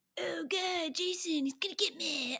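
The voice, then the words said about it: Poor imitation of another person's voice. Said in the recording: “that's a terrible impersonation of him ... That's like the William Shatner version of Tom Matthews.”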